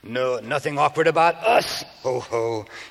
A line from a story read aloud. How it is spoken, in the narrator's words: she went on, encouraged by her husband's laughter